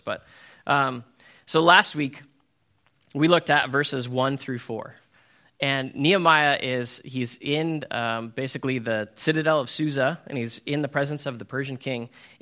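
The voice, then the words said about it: Slightly hoarse voice. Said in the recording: “I'm recovering from a cold, so that's why my voice is a little hoarse.”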